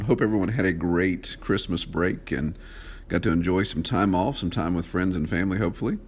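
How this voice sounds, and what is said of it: Congested head-cold voice. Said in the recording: “what's up with my voice, yeah, I got a little bit of a head cold going on there, so it's giving me a little bit more of a radio voice”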